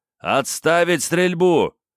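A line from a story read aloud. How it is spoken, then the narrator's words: Yelled. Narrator (Russian): заорал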